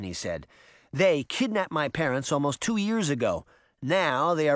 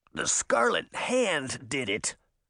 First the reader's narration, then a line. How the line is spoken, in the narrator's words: Uncle Jake croaked